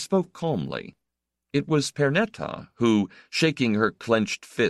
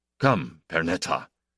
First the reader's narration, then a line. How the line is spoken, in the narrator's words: Emmanuel said roughly